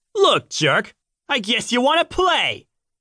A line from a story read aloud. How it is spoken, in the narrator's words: yelled